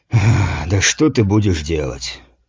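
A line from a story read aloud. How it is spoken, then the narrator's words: Heavy sigh. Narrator (Russian): тяжко вздохнул воин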